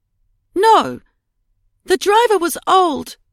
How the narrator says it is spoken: cried Edie

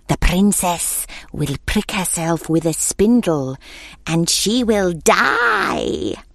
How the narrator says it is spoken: hissed

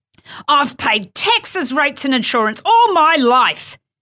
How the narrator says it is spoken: he bellowed

